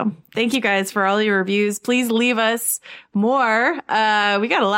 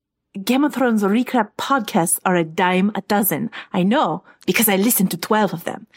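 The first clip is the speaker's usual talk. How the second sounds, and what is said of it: Deliberately bad put-on fantasy accent. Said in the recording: “That was terrible, but that's my terrible Dornish accent”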